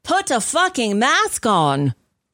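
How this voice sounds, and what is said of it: Weak put-on British accent. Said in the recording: “I don't do a good British accent”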